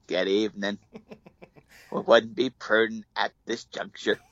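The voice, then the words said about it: Imitates another person's voice. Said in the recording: “my Carvey impression of George Bush”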